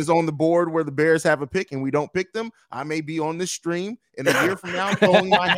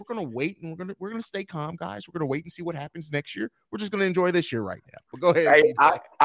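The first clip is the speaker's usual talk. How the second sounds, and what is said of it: Put-on proper, calm voice. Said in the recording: “put on my proper voice.”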